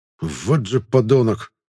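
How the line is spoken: Hissed through teeth. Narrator (Russian): прошипел сквозь зубы магистр

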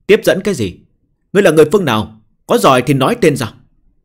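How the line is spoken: Woman shouting. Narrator (Vietnamese): Nữ tử quát lên

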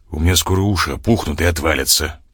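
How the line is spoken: Grumbling. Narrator (Russian): проворчал

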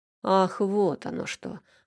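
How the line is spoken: Offended snort. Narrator (Russian): оскорбленно фыркнул

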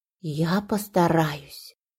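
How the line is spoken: Whispered. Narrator (Russian): прошептала Иришка

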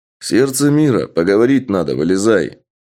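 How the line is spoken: Loud man's voice. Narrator (Russian): громко сказал мужчина

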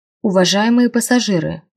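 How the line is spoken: Magically amplified voice. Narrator (Russian): магически усиленным голосом сказал он

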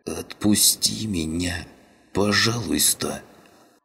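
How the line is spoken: Wheezing. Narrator (Russian): просипел каннибал

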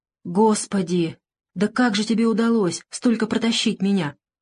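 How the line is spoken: Bewildered strained whisper. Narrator (Russian): растерянно прошептал угрюмый, с трудом выдавливая слова

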